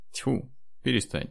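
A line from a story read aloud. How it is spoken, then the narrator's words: Laughing. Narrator (Russian): засмеялся Андрей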